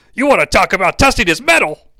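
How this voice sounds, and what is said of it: Bad Jerry Lawler impression. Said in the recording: “That's a really bad Jerry Lawler impression”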